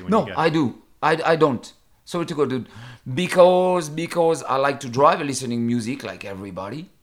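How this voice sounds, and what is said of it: Non-native English accent. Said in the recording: “Sorry, my accent.”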